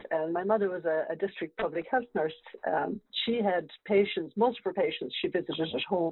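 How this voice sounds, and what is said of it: Irish accent. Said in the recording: “a wonderful accent ... I grew up in the west of Ireland”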